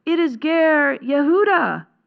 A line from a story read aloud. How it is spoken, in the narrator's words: cried the scribe